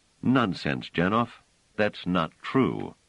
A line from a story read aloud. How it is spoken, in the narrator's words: Trevise drew a deep breath, then said in a carefully controlled voice